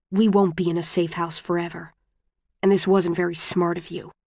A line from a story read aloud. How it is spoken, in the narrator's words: Tobias says to him, very quietly